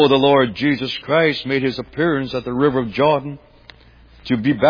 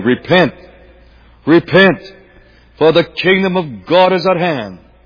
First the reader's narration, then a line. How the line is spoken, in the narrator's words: The Apostle John, he cried